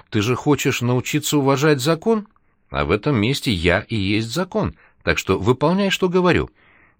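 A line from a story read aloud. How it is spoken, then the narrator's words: Sly voice. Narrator (Russian): хитрым голосом ответил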